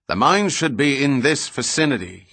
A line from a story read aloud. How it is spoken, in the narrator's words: he shouted